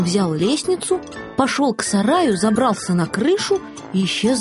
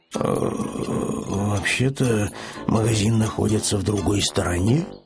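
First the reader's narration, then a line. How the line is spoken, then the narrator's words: Low mutter. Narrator (Russian): пробормотал вполголоса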